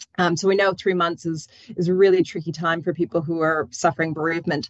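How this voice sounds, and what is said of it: Foreign accent. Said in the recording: “you can tell from my accent, a lot of my support people are around the globe”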